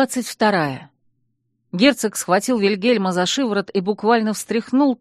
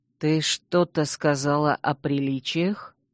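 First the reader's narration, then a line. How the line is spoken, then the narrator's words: Quiet and insinuating. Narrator (Russian): Герцог произнес это тихо и вкрадчиво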